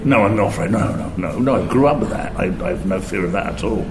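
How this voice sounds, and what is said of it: London working-class English accent. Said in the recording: “I'm still the only one with a London working class accent. So I'm the only one that sounds like this.”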